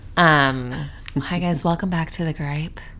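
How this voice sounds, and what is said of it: Calm NPR-style podcast voice. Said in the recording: “We're practicing our NPR podcast voice.”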